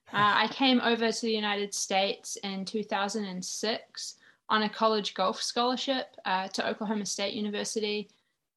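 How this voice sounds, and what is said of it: New Zealand accent. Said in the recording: “I'm from New Zealand, which is probably the accent that you can hear”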